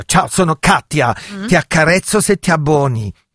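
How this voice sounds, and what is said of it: Put-on German accent. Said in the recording (Italian): “hai fatto un po' un accento tedesco”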